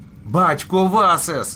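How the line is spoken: Shouted. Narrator (Ukrainian): закричав він

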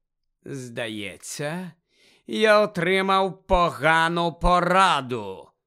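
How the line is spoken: High cold voice, shaking anger. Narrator (Ukrainian): вимовив Гаррі високим холодним голосом, котрий аж тремтів від злості

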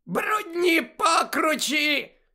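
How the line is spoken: Woman's shriek. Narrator (Ukrainian): заверещала Амбридж

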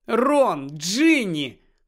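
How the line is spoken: Exclaim. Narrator (Ukrainian): вигукнула місіс Уізлі

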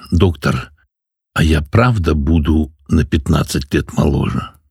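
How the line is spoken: Timid question. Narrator (Russian): робко спросила

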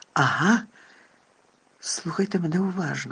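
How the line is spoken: Very quiet, very clear. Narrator (Ukrainian): сказав Дамблдор дуже тихо і дуже чітко

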